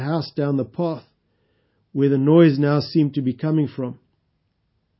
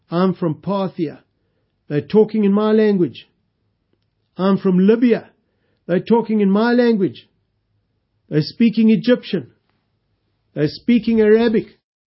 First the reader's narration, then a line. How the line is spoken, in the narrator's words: people exclaiming excitedly